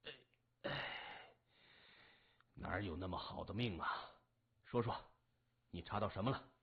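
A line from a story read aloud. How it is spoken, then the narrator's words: Quiet sigh. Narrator (Chinese): 江森暗叹了一声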